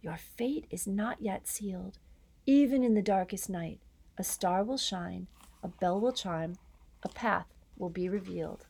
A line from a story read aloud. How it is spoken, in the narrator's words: he whispered